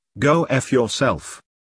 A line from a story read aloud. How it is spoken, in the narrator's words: calmly replied